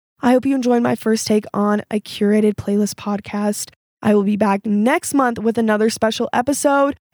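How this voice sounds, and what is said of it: Congested voice from a cold. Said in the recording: “I had a cold this whole time, so my voice sounds a little bit weird”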